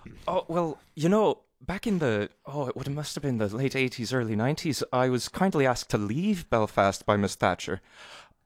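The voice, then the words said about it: Belfast Northern Irish accent. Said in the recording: “it actually was really helpful that you had an accent ... What a beautiful accent ... You're from Belfast”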